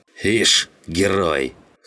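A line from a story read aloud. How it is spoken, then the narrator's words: Snorting. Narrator (Russian): Хмыкнул Жиган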